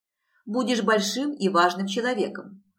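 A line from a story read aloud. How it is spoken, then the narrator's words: Short chuckle. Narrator (Russian): хохотнул Петер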